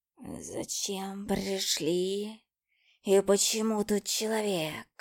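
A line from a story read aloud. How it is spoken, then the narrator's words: Hissing cat. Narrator (Russian): Прошипел кот-близнец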